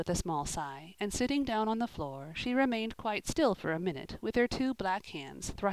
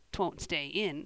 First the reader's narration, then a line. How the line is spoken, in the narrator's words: said Joel, scornfully